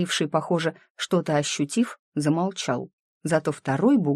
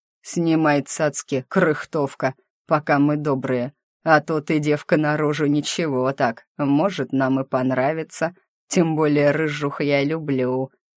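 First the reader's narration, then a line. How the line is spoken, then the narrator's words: Lewd chuckle. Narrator (Russian): и похабно хохотнул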